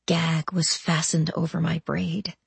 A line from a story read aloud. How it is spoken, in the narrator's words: said softly